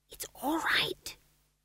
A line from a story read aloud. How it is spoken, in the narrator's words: she whispered